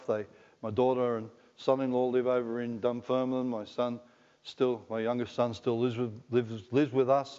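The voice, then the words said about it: Broad, thick Scottish accent. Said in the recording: “I can sound like a Scots. You can hear my voice and the accent. ... it's pretty broad and thick, isn't it?”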